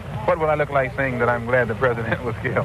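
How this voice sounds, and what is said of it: Fast, hearty speech. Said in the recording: “That's why I'm talking so fast and so hearty.”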